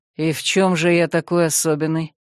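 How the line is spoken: Grim smirk. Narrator (Russian): Навлад мрачно усмехнулся

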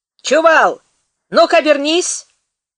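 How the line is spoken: Shouting. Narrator (Russian): крикнул Беняк

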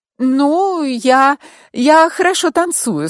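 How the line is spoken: Slightly unsure smiling. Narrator (Russian): сказала Натали и чуть неуверенно улыбнулась

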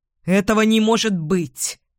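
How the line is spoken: Irritated objection. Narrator (Russian): раздраженно возразил Эдвин

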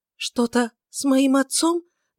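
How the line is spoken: Trembling voice. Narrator (Russian): дрожащим голосом спросила она

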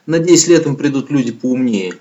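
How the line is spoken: Plain. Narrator (Russian): говорит теперь Луиза

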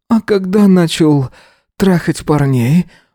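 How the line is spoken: Breathed out. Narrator (Russian): Выдохнул

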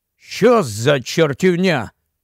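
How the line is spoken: Barked. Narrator (Ukrainian): гаркнув Вілкокс

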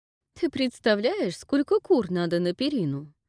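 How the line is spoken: Laughing. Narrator (Russian): рассмеялась Глая

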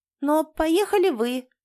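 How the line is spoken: Thin girlish voice. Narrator (Russian): вставила девочка тонким голосом

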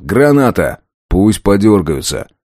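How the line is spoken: Shouting. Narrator (Russian): закричал

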